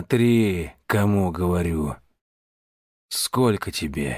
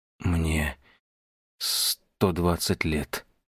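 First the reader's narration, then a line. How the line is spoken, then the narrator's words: Forced out, horrified. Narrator (Russian): наконец выдавил Шандагор, ужаснувшись собственным словам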